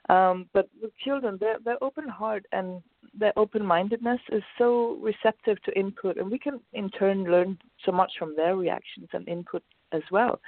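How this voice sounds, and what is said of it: Voice slightly off, unwell-sounding. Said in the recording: “I've just had a cold, so excuse my voice a bit.”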